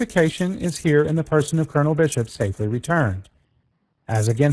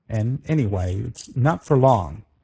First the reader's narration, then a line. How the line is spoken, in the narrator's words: growled the colonel, finding speech at last